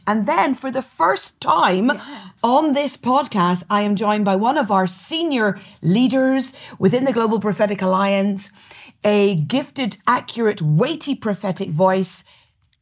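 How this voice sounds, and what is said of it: Northern Irish accent. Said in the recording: “My accent is Northern Irish.”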